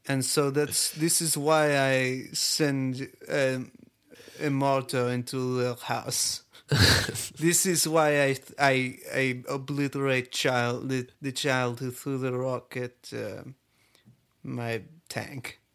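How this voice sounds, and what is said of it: Put-on Israeli accent, throaty. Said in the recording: “You've got a pretty good Israeli accent ... not that different from a Borat accent ... sound like you have like a super ball stuck in the back of your throat”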